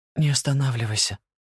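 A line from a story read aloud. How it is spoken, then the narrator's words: Whisper. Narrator (Russian): шептала она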